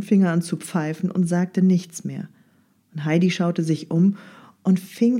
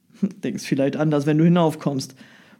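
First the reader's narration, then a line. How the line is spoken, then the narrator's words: Grumbling baker. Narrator (German): brummte der Bäcker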